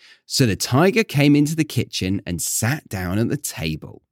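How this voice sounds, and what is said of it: Usual voice. Nothing is said of it.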